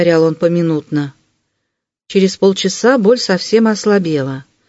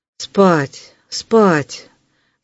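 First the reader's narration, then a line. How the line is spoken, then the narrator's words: Weak repetition. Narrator (Russian): повторил слабым голосом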